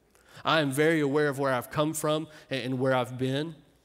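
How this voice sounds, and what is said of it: Strong noticeable accent. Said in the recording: “this accent that you all are having to cut through right now”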